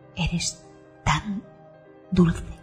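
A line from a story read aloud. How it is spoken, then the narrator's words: Rhythmic murmur. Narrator (Spanish): murmura al ritmo de sus embestidas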